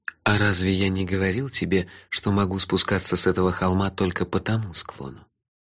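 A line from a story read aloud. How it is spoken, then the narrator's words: Gloomy. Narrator (Russian): Он мрачно добавил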